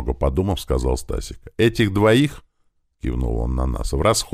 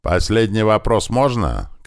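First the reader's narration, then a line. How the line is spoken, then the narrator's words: Shout. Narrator (Russian): крикнул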